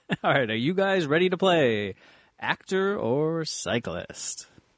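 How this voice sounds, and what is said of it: Game show announcer voice. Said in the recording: “Give us your best announcer voice. ... like a real game show host”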